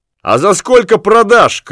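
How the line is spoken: Group shouting. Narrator (Russian): крикнули все

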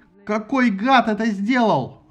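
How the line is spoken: Yelling. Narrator (Russian): орал Аякс

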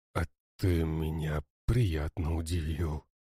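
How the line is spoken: Hoarse, barely audible voice. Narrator (Russian): донесся хриплый, еле слышный, но тем не менее голос

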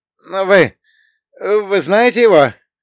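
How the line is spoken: Strained wheeze. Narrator (Russian): Он прохрипел, с трудом выталкивая слова

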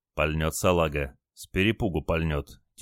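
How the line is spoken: Quiet sailor's voice. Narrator (Russian): тихо сказал моряк

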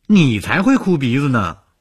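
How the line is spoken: Laughing. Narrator (Chinese): 宋清又笑了，说

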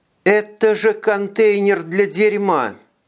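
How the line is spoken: Sad statement. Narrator (Russian): Печальным голосом констатировала Элеонора

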